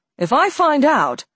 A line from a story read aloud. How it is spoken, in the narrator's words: Alex said, leaning forward and raising his voice